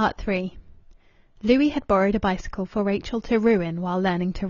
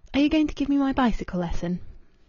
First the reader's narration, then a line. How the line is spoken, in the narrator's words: She breathed relief and asked